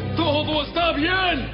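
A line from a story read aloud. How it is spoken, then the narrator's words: Shouting. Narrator (Spanish): Ahimaas le gritó al rey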